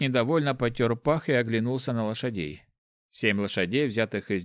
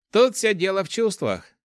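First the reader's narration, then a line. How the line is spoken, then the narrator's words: Amused snort. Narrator (Russian): хмыкнул воришка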